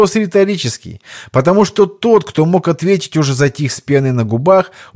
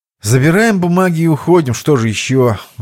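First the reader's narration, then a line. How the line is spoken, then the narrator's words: Sigh. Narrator (Russian): вздохнул Иван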